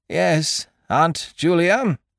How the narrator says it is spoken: quavered Eucridge

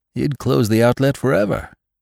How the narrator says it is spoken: exclaimed Venters

